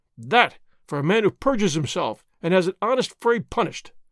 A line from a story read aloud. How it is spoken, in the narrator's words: Signor Zorro cried